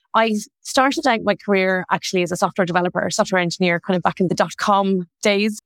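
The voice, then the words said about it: Irish accent. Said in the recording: “You might tell from my accent, I'm originally from Ireland. I'm from Dublin”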